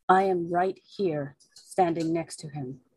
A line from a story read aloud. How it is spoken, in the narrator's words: Mordecai is going to say very quietly